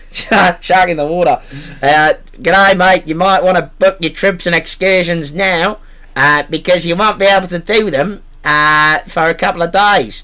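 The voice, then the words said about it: Put-on Australian accent, slipping. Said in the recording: “I can't do the accent, so we're going to go with Australian. ... Losing that accent a lot.”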